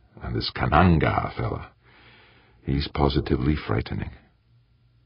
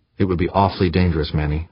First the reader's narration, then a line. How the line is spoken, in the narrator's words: said Chris Cardenas